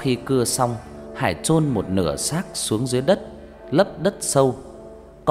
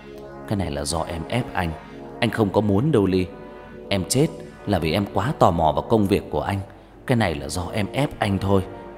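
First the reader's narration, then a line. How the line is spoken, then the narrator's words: Muttered. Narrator (Vietnamese): Hắn lẩm bẩm trong mồm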